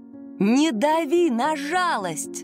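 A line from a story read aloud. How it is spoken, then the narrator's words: Shouting again. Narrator (Russian): снова закричала она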